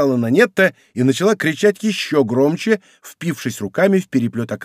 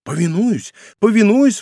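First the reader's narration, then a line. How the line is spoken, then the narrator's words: Exclaiming. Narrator (Russian): воскликнул Бруссель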